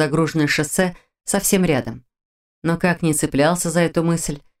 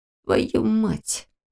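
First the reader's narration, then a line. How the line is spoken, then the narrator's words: Muttered through teeth. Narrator (Russian): процедил Лерик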